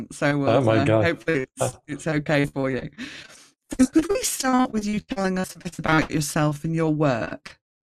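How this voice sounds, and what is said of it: Blended English-Australian accent. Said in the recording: “your Australian accent ... I've kind of got a blend of an English-Australian accent”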